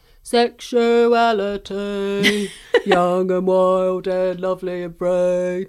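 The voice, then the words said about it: Sung imitation of another person's voice. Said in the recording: “That was such a good impression of Billy Bragg.”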